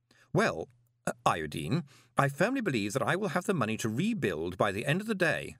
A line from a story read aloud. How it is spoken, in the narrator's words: said Moist